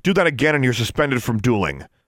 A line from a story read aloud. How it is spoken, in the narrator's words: Miss Shirtliff snapped